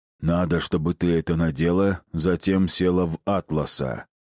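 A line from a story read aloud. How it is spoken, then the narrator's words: Low booming drone. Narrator (Russian): прогудел он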